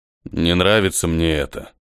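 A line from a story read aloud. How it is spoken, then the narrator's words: Gloomy, terse. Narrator (Russian): мрачно проронил Чудик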